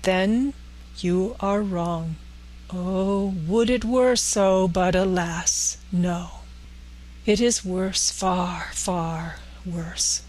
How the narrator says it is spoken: said solemnly

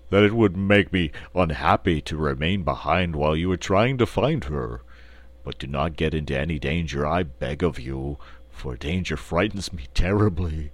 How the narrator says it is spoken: said the Cowardly Lion in his deep, rumbling voice

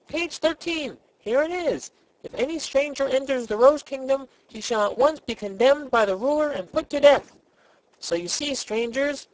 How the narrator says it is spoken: he continued triumphantly

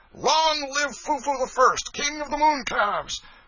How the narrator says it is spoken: hootings, catcalls, and peals of laughter

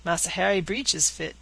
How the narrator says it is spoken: said Caesar, with a chuckle

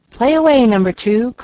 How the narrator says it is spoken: called out Frank

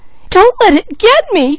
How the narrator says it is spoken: cried Peaches

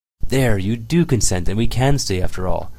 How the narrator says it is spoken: exclaimed Sonetchka, jumping for joy

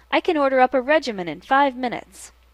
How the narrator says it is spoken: cried, getting very angry

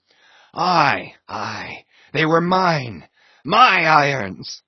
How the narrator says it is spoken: cried Ahab exultingly

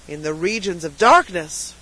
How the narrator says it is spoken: cried a voice

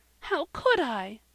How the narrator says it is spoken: cried Polly, in accents of despair

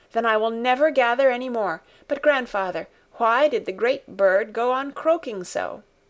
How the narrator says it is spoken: she continued in an eager tone of inquiry

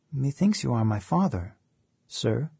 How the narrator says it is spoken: said Otto

